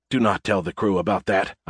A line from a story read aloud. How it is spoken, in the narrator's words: I whispered